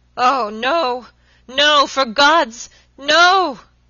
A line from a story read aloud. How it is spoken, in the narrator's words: he shrieked hoarsely